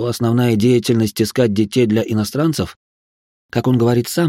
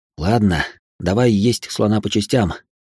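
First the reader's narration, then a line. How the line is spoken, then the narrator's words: Heavy sigh. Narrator (Russian): тяжело вздохнул я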